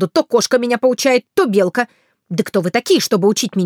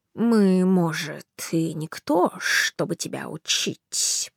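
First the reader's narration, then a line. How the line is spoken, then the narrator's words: Snake hissing. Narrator (Russian): прошипел уж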